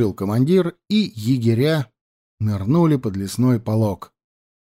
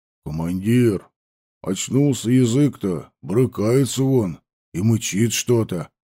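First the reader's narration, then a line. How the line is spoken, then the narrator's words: Deep bass voice. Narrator (Russian): пробасил Ваня Кудряш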